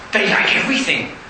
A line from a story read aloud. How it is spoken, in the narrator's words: said Tigger cheerfully